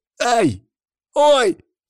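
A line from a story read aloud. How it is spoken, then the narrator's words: Two voices crying out. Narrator (Russian): вскрикнули Никита и Артур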